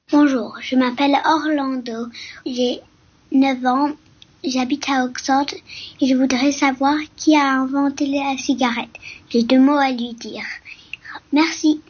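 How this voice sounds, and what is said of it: Child's slight English accent in French. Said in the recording (French): “ton petit accent anglais d'Oxford”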